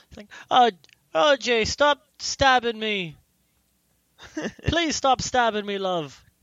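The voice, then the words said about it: Put-on Irish accent. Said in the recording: “she had an Irish accent. ... What'd she sound like? ... It sounds like a banshee.”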